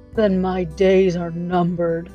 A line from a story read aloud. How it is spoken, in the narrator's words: observed Jack with a deep sigh